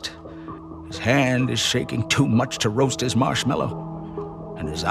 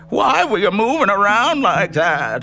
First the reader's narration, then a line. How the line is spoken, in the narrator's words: He asked in a shriek I'd never heard before